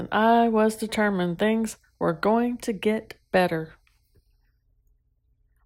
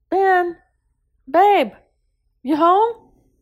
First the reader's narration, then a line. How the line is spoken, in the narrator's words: called out